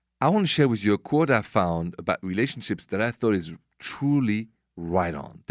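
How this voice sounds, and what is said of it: French accent. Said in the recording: “my accent is French, straight from Paris”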